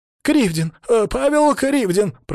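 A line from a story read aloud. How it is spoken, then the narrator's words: Squeaky voice. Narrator (Russian): пропищал тот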